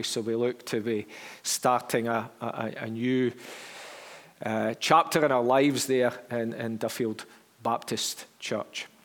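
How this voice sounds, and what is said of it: Strong Derby English accent. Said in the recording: “this very strong Derby accent”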